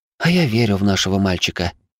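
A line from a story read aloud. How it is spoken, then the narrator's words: Calm sigh, woman. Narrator (Russian): вздохнула женщина, уже окончательно успокоенная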